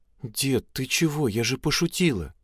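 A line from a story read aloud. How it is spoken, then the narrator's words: Said quietly. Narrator (Russian): тихо произнесла она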